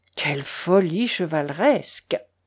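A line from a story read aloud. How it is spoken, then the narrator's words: Murmuring. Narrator (French): murmura l'amiral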